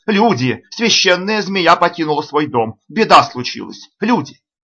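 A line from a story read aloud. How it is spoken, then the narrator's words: Old man shouting. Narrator (Russian): Чтобы отвлечь внимание жрецов, старый резчик закричал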